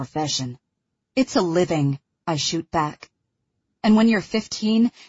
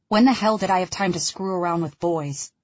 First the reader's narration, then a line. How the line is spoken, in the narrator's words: He laughs harshly